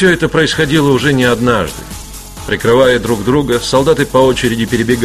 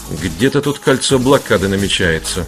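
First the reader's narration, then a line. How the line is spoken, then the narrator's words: Muttered. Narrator (Russian): буркнул Скотч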